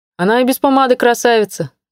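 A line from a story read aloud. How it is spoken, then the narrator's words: Displeased grumble. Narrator (Russian): недовольно пробурчал Семен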